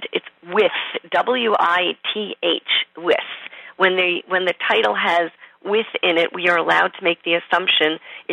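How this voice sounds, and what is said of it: New York accent. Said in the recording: “It must be my New York accent.”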